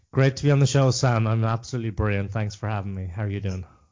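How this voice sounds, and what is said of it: Slight Irish accent. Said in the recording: “I'm detecting a slight accent there ... the sunny southeast of Ireland, Wexford”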